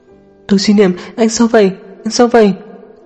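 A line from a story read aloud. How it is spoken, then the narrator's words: Strained trembling sobbing. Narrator (Vietnamese): Tống Thanh Xuân nhìn chằm chằm Tô Chi Niệm, tốn sức há to miệng, dùng sức lực quá lớn mới run giọng khóc nức nở nói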